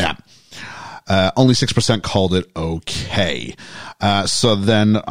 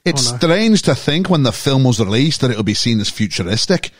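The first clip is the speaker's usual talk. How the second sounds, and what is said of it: Put-on Scottish accent. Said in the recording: “Should I read it in a Scottish accent?”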